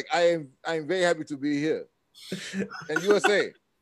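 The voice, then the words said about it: Put-on African accent. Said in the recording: “I'm gonna tell everybody I'm an African... something like I was an African exchange student”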